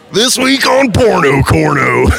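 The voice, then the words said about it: Exaggerated Southern character voice. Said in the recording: “Just a little of that voice... Do the voice... his actual voice is not quite as Southern”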